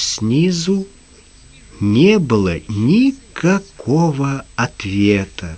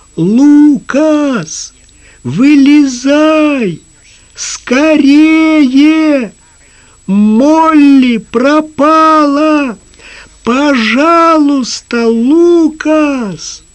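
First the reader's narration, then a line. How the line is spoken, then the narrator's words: Shouted down through cupped hands. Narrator (Russian): Джим приложил ладони рупором ко рту и крикнул вниз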